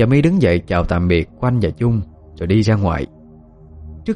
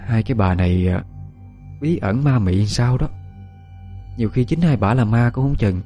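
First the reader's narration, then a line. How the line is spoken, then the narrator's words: Sighing. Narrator (Vietnamese): Quanh thở dài nói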